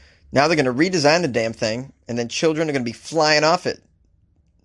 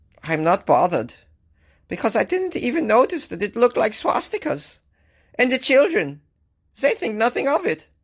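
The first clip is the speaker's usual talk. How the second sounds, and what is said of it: Woman's German accent, poorly done. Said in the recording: “I'm going to try and do a female German accent. ... That was pretty bad.”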